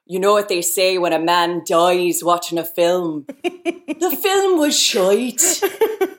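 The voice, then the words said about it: Put-on Irish accent. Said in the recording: “a pretty accurate Wild Mountain Time Erin, accent. ... Your accent is actually better than most of the people in Wild Mountain Time.”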